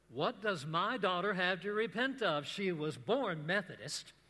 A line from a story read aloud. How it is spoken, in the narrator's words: She said to me very loudly